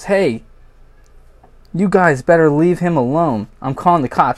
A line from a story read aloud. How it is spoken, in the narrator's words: yells